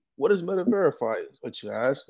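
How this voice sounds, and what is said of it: Commercial announcer voice. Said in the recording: “did a little commercial voice.”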